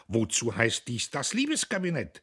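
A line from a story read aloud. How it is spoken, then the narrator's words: Proud. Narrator (German): sagte er stolz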